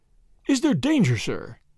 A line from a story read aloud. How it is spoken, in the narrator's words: gasped Johnson